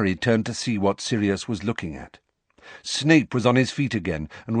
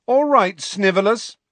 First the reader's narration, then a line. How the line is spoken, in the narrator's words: said James loudly